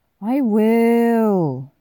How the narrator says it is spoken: Tommy whines

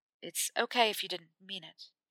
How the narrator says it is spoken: Harry said quietly

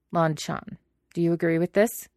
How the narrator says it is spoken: Lan Tijin asked stiffly

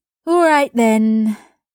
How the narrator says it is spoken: she said with an exaggerated sigh

